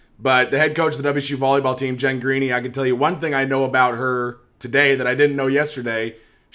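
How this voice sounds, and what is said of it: Strained voice, losing it. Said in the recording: “I continue to fight off. I don't know. I'm losing my voice.”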